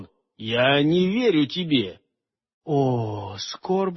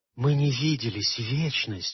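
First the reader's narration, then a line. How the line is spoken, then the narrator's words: Whispering. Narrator (Russian): шептала она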